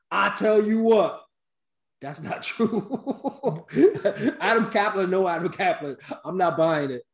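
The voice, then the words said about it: Imitates another person's voice. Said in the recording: “in terms of John Gruden and in my best imitation”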